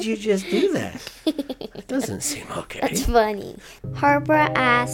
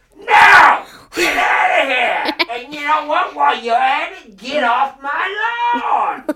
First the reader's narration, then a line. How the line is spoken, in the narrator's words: yell